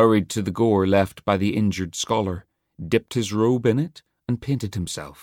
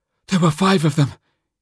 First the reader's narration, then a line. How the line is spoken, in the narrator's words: gasped